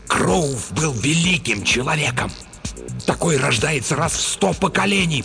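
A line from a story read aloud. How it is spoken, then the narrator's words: Hiss. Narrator (Russian): прошипел Стоун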